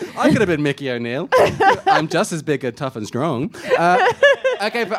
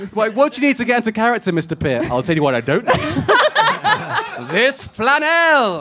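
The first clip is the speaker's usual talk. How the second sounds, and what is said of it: Put-on Irish accent. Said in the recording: “That was a good Irish accent.”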